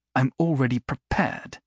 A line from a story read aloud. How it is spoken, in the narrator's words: she said stiffly